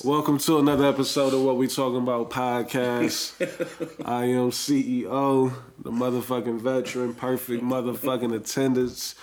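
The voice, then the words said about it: Hoarse, congested sick voice. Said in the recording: “Please excuse my voice. I'm a little under the weather. Not weather necessarily, it's the allergies.”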